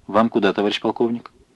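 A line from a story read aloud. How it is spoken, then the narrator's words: Respectful yet familiar undertone. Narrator (Russian): Рослый автоматчик одновременно почтительно и фамильярно спросил вполголоса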